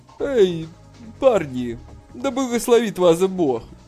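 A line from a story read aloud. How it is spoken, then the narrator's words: Laughing. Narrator (Russian): Толстый Хань рассмеялся и сказал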